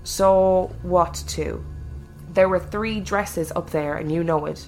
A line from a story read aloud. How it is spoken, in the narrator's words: Jay slowly asked